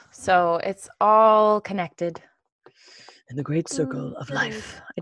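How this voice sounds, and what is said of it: Imitates another person's voice. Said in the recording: “I just heard Mufasa. ... That was an amazing impression.”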